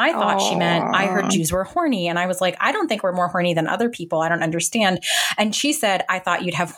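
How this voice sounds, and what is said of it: Usual voice. Nothing is said of it.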